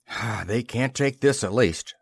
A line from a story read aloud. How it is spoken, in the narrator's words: sighed McLaurin